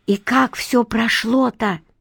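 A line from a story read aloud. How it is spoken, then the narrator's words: Whispered, female. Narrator (Russian): прошептала Мила Зуеву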